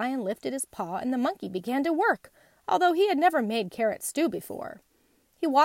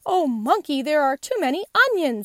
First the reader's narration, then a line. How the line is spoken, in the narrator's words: he cried